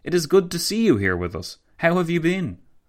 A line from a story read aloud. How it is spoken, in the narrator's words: Kaelender exclaimed, with some sincerity